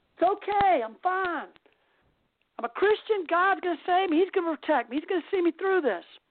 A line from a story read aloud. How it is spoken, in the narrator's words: screams to the man in the helicopter and says